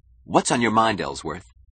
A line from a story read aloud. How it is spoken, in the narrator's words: Keating snapped